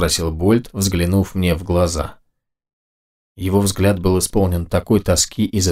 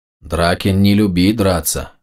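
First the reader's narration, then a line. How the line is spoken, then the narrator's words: Offended droning. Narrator (Russian): обиженно прогудела левая голова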